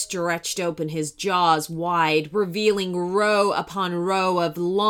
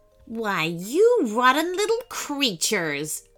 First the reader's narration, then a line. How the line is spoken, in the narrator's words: sneered the sea serpent